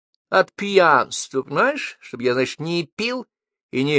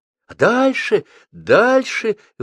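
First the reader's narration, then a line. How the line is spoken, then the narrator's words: Exclamation. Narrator (Russian): воскликнула Вера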